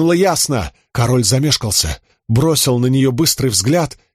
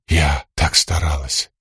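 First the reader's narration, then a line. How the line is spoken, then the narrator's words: Numb whisper. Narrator (Russian): оцепенев, прошептала Ясно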